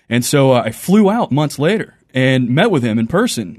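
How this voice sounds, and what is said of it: Southern US Texan accent. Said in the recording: “the southern accent, I'm from Texas”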